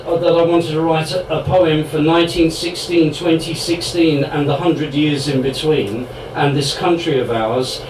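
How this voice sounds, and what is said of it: English accent. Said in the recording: “as you can tell by my Sassenach accent.”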